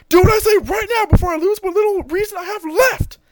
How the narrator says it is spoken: Goku starts to scream and says

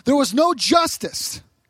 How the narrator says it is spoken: the Indian Christians yelled

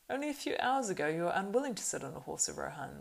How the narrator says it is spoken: laughed Legolas

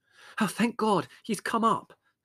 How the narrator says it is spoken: said Margot in fervent tones

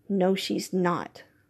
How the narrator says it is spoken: Joaquin murmured

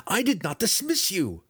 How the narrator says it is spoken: he cried again, helplessly

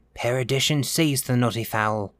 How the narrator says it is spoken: he muttered

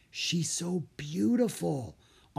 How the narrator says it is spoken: Anna whispered

